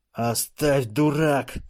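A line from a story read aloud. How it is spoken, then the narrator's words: Hissed. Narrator (Russian): прошипел Эллис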